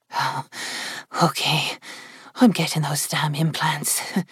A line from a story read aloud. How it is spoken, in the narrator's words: she said in a husky whisper